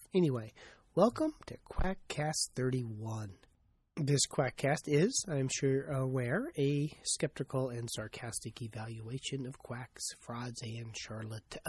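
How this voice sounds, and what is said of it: Congested voice from a cold. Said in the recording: “As you can probably tell, I have a bit of a cold.”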